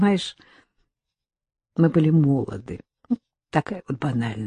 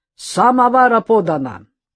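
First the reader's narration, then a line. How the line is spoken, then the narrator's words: Shouting. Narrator (Russian): кричал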